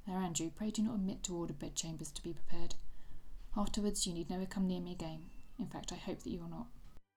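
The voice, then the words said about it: Attempted Irish accent, not convincing. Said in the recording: “my Irish accent there ... Thought it'd be a little better.”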